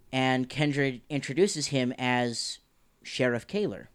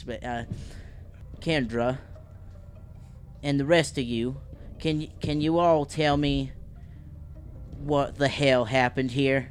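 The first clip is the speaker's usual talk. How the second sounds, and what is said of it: Put-on Southern US accent. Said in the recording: “I'm going to give him like a southern accent, so hopefully I don't butcher this”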